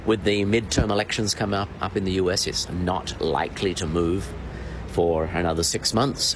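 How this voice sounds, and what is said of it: Australian accent. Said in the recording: “for the accent, I think he's originally from Adelaide”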